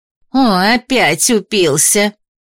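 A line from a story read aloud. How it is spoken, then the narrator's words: Grumbling woman. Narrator (Russian): заворчала одна из женщин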